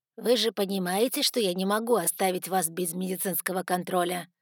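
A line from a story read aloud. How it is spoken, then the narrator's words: Stern question. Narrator (Russian): строго спросил мистер Эшли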